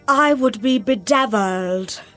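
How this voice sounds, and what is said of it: Moira Rose impression. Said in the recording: “Best Moira impression. ... That's not bad.”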